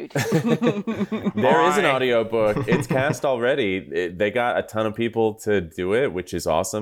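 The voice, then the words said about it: Natural Australian accent. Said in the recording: “If somebody's going to do an Australian accent, it should be me, since I come by it so naturally.”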